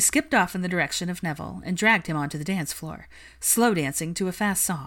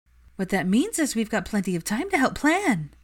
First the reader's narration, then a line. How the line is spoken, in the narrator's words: Luna smiled brightly